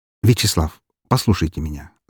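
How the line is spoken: As calm as possible. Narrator (Russian): сказал я максимально спокойным тоном

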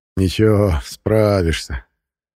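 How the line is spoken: Laughing speech. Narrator (Russian): засмеялся Жуков

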